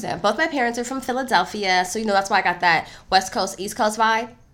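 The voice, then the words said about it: Slight Philadelphia twang. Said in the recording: “that little twang... both my parents are from Philly, so I'm kind of hood on the low”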